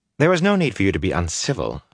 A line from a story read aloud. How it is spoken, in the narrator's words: Fael said in a tight voice when the High Lord was out of hearing